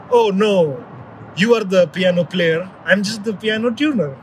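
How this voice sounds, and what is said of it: Weak put-on Russian accent. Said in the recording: “in a very Russian accent ... which he says in that Russian accent, it hurts so bad, and I wish I could do a better Russian accent.”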